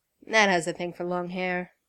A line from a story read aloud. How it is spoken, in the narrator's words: Clint said